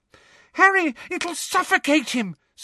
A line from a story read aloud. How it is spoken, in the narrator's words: screamed Ginny, immobilized by her broken ankle on the floor